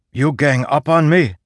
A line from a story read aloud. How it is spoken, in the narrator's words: Zeth shouted to those below